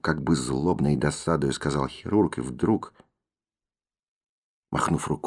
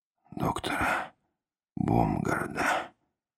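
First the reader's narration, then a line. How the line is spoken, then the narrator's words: Barely audible. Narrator (Russian): еле слышно сказал Поляков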